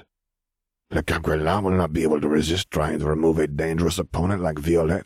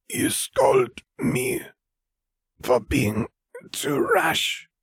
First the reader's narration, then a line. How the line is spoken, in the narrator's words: Vera rasped